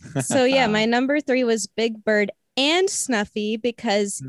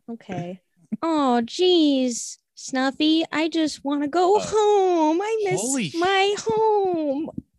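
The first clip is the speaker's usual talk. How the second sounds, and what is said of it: Nasal Big Bird character voice. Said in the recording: “it was Big Bird ... The way you said Snuffy and the way it kind of came out through your nose ... I think that was a great impression.”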